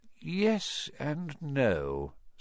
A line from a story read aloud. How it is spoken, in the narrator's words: said Dumbledore quietly